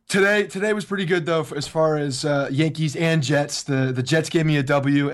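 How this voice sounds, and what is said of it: Hoarse, nearly lost voice. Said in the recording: “the Yankees played like your voice sounds ... my voice is probably gone from yelling at college football”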